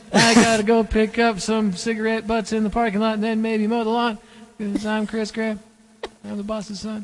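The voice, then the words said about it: Imitates another person's voice. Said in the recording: “my impression of him”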